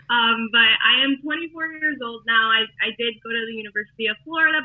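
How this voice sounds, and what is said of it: Miami accent. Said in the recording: “I am a Miami girl, and you could probably hear the accent, of course.”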